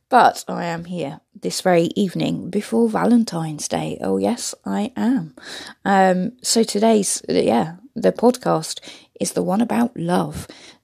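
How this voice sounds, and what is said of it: Hoarse, deep, fading voice. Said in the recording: “losing my voice a little bit tonight ... sounded a bit like Barry White then with my voice”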